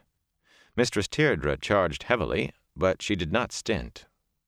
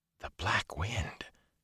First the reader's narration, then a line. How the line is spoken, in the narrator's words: Matt breathed, frozen